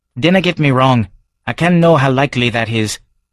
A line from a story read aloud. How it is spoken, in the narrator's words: He frowned and hastily added